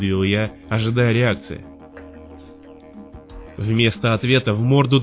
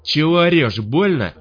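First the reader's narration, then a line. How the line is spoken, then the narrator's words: Shouted reply. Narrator (Russian): крикнул в ответ долговец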